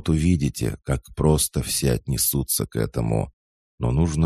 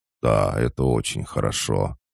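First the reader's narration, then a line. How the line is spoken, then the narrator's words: Solemn announcement. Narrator (Russian): объявил торжественно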